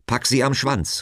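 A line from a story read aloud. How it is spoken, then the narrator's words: Calling out. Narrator (German): rief Gott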